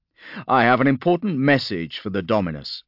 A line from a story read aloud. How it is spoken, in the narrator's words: replied Harkus